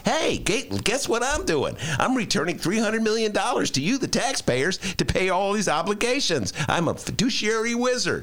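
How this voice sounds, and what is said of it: Impression of Lori Lightfoot. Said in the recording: “That Lightfoot impression's getting better and better”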